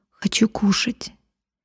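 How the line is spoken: Barely audible speech. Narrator (Russian): Он еле слышно сказал

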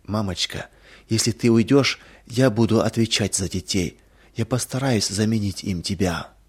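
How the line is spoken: Comforting whisper, suppressing moan. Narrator (Russian): Сдерживая стон, готовый вырваться из груди, Анита стараясь утешить ее, прошептала

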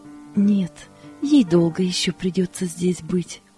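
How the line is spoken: Plain. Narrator (Russian): ответила Таня

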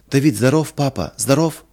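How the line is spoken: Joyful question. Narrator (Russian): спросила Лина радостно

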